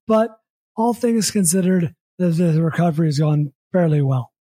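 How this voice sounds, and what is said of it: Slightly hoarse, tired voice. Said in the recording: “you can probably hear my voice. I'm a little more hoarse than I normally am. I'm a little more tired”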